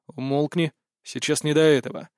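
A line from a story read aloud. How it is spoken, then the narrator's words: Cold inner voice. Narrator (Russian): холодно ответил я у себя в голове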